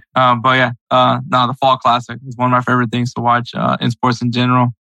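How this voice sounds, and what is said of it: Hoarse, fading voice. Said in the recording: “you can tell by the fact that I'm losing my voice.”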